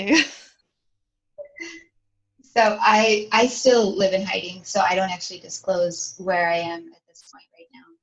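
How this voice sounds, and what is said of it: Non-British foreign accent. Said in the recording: “as we could probably tell from your accent, you're not in the UK”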